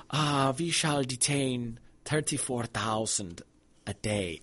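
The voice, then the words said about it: Put-on German accent. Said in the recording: “I just want to say it with, you know, with a German accent.”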